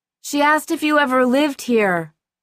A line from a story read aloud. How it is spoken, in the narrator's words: Paul yelled